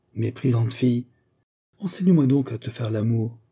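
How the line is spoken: Exclamation. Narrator (French): s'écria-t-il

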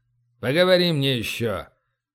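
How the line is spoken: Menacing shout. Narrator (Russian): грозно прикрикнул стражник

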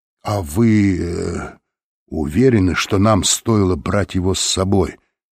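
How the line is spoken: Plain. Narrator (Russian): спросил Лэнгдон

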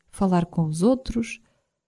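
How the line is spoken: Murmur. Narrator (Portuguese): murmurei

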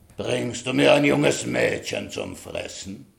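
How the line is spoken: Dragon's hiss. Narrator (German): fauchte der Drache

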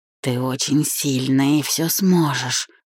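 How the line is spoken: Whisper. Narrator (Russian): прошептал

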